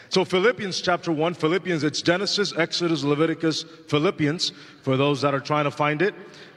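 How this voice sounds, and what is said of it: Non-native English accent. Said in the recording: “pardon my English, I don't use it too often, so I hope that today my accent doesn't come out too much”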